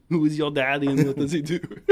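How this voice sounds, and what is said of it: Arnold Schwarzenegger impression. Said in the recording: “my terrible Arnold Schwarzenegger impression”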